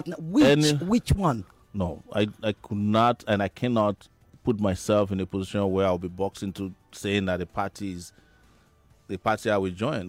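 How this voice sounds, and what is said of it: American accent. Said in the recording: “I heard your American accent.”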